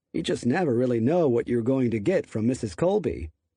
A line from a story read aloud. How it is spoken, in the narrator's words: Darden said, chuckling